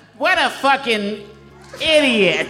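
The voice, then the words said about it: Bugs Bunny cartoon voice impression. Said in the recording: “your impression of Bugs Bunny ... I've heard his bugs, and it's out of this world”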